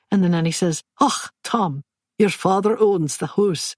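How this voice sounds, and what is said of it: Good put-on Scottish accent. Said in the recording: “his Scottish nanny accent was remarkably good”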